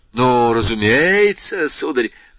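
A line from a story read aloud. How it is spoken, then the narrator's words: Loud. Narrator (Russian): прибавил он громко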